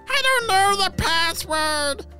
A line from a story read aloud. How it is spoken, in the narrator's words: shouted the unicorn